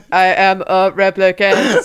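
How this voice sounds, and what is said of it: Robotic replicant voice. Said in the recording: “I can do a cool robot voice ... They speak like robots, right?”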